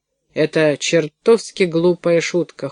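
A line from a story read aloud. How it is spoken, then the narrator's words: Cold. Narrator (Russian): холодно сказал Карл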